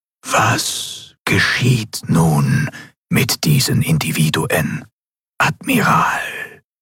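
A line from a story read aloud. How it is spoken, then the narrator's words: Ghostly whisper in mind. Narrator (German): die gespenstische Stimme des Gouverneurs wieder direkt in ihrem Verstand flüsterte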